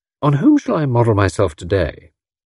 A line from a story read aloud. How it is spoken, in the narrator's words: Tuppence's voice, with an unusual note in it